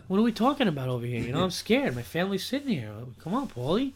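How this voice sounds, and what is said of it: Impression of a gangster movie character. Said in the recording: “your impression ... The guy from Goodfellas talking to Paulie.”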